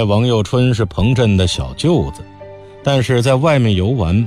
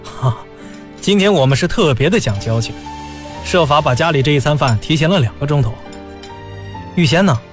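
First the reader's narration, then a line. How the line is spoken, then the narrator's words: Laughing. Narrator (Chinese): 彭镇笑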